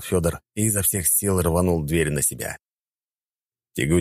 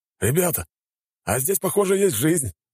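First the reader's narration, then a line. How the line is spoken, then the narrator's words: Joyful announcement. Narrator (Russian): радостно сообщил нам Шмелев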